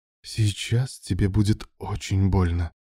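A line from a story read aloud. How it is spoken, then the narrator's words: Female hiss into ear. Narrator (Russian): прошипела она ему в ухо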